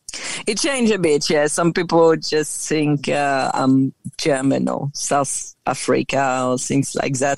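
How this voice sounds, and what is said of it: French accent with slight Australian tinge. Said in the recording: “I hear the French accent. But then every once in a while, I do hear a little bit of Australian”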